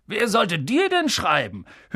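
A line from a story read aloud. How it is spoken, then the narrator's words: Sneering. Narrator (German): höhnte Onkel Vernon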